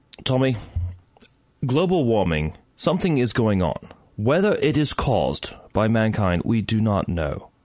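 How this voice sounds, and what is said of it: Put-on English accent. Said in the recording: “should I do this in English accent ... My English accent”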